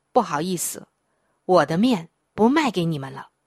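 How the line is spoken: Cold, curt. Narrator (Chinese): 店老板却冷冷的说

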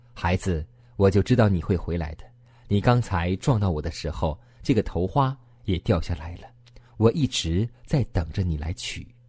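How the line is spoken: Old man, smiling. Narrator (Chinese): 那个老绅士就微笑着对他说

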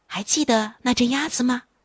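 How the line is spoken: Soft whisper. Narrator (Chinese): 丽莎再一次小声地对这个小男孩约尼说

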